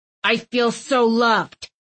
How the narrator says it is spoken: Thistle growled

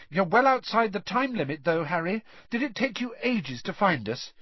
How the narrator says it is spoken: Hermione brushed the beetle away impatiently and said

